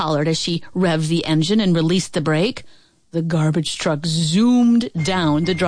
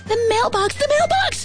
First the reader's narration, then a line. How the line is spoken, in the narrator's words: screamed Billy